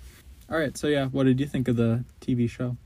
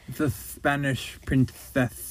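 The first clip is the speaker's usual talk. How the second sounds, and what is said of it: Attempted Spanish accent, lisp-like. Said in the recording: “I don't think I can do the Spanish accent ... I just sound like I have a lisp.”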